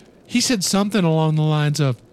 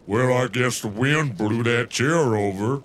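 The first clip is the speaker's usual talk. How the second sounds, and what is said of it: Imitates another person's voice. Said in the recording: “Oh, you are a mimic.”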